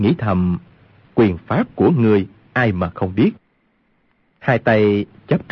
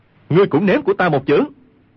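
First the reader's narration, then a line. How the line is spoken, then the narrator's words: Shouted. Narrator (Vietnamese): quát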